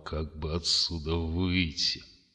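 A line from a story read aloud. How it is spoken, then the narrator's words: Muttering through gritted teeth. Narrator (Russian): заскрипел зубами и пробормотал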